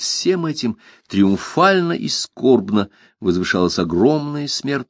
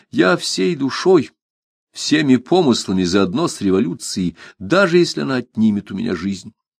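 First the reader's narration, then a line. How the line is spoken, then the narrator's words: Pleasant calm voice. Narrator (Russian): приятный голос Мишеля, спокойно произнесшего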